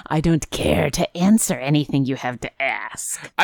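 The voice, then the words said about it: Gravelly monster voice. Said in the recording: “It's my standard monster voice, which is gravelly.”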